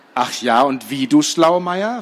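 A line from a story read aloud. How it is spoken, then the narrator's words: Plain question. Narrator (German): fragte Laura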